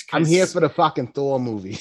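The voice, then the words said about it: Put-on Boston accent. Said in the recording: “just do nothing but a Boston accent”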